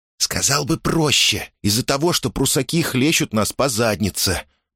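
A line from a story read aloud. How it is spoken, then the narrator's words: Whisper. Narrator (Russian): прошептал Мусса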